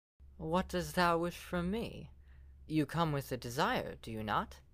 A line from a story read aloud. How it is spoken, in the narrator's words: asked in a lively tone